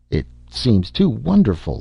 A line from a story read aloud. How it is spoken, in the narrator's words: Larry muttered